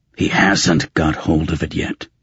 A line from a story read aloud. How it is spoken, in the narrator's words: Raven growled